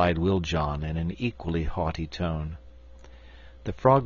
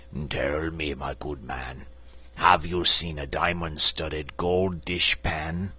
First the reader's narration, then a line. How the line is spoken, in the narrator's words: the frogman approached and said with a haughty croak